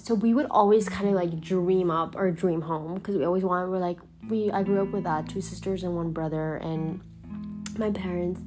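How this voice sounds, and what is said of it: New York and Miami mixed accent. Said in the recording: “my accent's, like, New York, Miami, kind of mix. I don't know, Jewish, whatever.”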